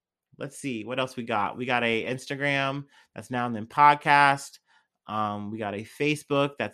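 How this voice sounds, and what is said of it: Usual voice. Nothing is said of it.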